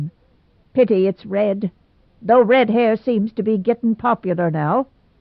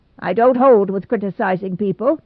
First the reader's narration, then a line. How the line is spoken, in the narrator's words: said Mrs